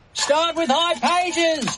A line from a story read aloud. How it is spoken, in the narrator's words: they yell